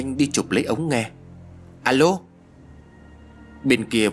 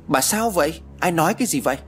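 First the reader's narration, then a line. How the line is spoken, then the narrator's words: Surprised exclamation. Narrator (Vietnamese): Ông ngạc nhiên kêu lên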